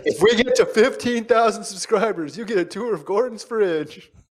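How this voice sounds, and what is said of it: Imitates a YouTuber's voice. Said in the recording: “That was my YouTuber impression.”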